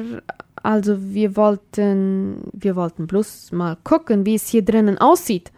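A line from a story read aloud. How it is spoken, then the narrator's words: Stammered. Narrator (German): stotterte Luisa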